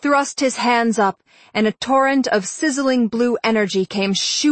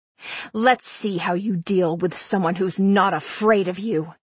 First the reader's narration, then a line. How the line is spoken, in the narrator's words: he snarled